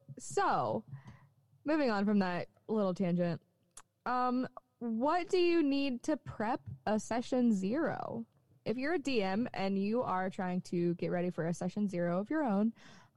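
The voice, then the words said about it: Slight Southern US country twang. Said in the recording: “accent's coming back even more now that I've been home ... My little twang is coming out ... You're going to hear my country.”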